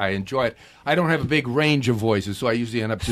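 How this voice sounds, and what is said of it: Usual voice. Nothing is said of it.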